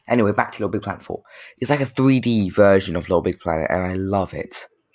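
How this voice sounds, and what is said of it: Croaky voice. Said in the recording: “Sorry if my voice sounds croaky.”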